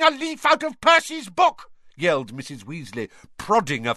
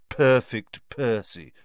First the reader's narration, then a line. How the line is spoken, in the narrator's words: muttered Fred